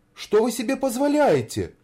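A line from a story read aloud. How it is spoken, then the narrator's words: Exclaiming. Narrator (Russian): воскликнула Снегурочка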